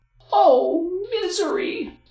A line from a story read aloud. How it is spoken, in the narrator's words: the girl cried